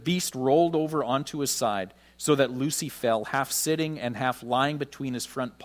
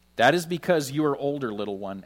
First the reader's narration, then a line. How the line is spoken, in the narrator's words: answered he